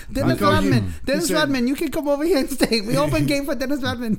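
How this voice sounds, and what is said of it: Put-on Korean accent. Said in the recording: “That's my Korean accent.”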